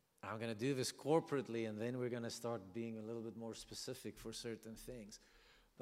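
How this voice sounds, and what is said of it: South African accent. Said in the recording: “just blame my accent. ... He's South African.”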